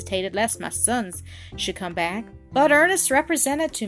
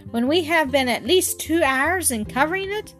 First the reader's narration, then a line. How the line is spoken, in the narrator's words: cried I